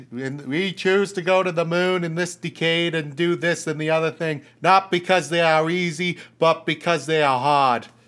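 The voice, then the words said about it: Boston-accented Kennedy impression. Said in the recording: “to spare you ... Boston accent”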